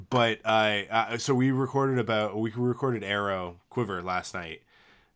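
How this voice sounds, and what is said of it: Froggy, hoarse voice. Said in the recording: “I was sick this week. ... It's also why my voice sounds kind of froggy.”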